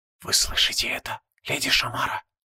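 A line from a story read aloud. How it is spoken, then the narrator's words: Whispered. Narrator (Russian): прошептал паладин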